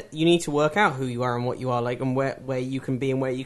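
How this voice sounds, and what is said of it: London English accent. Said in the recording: “Are you from London? ... Oh, it's a great accent. ... Isn't he pretty? His voice.”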